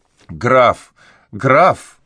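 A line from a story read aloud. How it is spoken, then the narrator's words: Frightened shout. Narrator (Russian): закричал Сбир, с испугом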